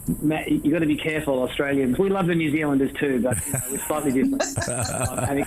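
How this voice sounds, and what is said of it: Australian or New Zealand accent. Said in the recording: “He sounds like he's got an Aussie or a New Zealand accent”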